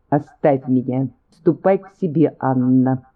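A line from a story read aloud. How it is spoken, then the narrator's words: Plain. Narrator (Russian): сказала она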